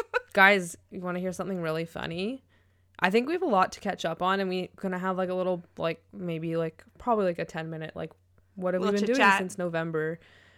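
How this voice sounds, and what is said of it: Slightly stuffy, congested voice. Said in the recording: “you can still kind of hear it in my voice ... you sound like a wee bit stuffy. You sounded worse yesterday for sure.”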